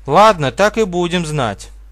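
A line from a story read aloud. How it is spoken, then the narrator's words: Exclaiming. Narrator (Russian): воскликнула Зоя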